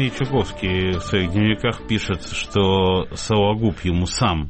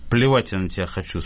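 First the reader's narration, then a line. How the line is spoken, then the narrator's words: Calm speech. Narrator (Russian): спокойно сказал Передонов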